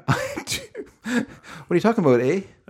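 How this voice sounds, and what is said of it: Exaggerated put-on Canadian accent. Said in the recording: “Are you still using that weird Canadian accent that you got? ... Maybe just like try to get a better accent.”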